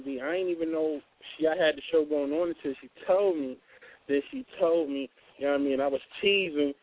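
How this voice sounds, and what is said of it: New York accent. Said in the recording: “You got a New York accent. You from the East?”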